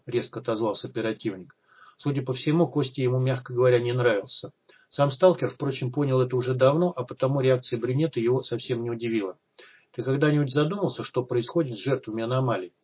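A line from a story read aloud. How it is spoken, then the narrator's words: Completely calm. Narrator (Russian): продолжал Костя совершенно спокойно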